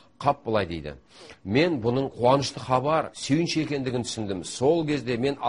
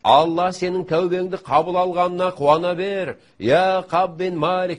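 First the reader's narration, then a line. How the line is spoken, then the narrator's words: Shouting. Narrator (Kazakh): деп айқайлап жатты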